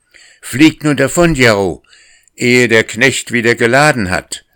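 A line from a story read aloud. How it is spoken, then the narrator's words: Calling out. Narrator (German): rief er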